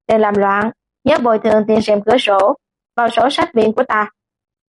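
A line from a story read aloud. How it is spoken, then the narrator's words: Cold. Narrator (Vietnamese): lạnh lùng nói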